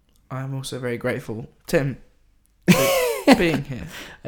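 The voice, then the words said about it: Imitates another person's halting, stalled delivery. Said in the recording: “Are you imitating my slightly stalled delivery?”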